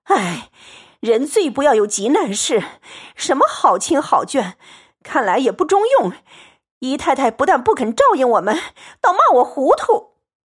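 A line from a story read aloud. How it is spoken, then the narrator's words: Sighing. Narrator (Chinese): 婆子叹说道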